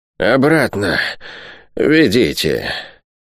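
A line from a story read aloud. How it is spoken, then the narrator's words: Hoarse older woman. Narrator (Russian): хрипло выговорила старшая из сестер Вольховен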